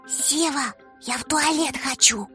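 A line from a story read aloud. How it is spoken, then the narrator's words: Whisper. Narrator (Russian): прошептала Варя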